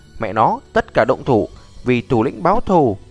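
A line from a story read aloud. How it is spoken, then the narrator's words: Angry shout. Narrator (Vietnamese): Tên béo giận dữ hét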